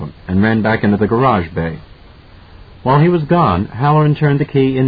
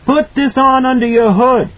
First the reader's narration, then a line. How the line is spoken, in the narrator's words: shouted